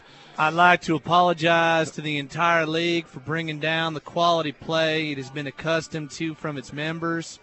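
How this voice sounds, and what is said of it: Exaggerated country accent, drawn-out words. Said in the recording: “Was an awesome country accent. ... I love how you just drew out every word.”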